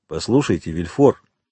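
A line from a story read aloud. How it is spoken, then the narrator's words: Plain. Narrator (Russian): сказал Довриньи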